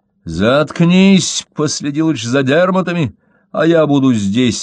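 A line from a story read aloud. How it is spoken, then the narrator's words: Barking shout. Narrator (Russian): рявкнул Мой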